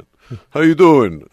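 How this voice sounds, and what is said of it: Exaggerated New York accent. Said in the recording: “impenetrable New York accent.”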